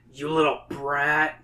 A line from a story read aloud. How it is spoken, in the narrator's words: she growls